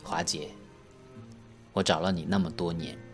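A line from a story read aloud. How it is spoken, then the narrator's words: Choked with tears. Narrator (Chinese): 我哽咽着说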